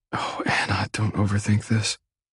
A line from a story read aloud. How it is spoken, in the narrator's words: I whisper as my anxiety returns